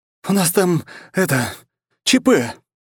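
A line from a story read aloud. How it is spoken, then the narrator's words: Groaning. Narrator (Russian): застонал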